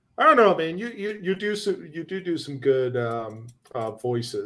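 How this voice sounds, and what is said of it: Usual voice. Nothing is said of it.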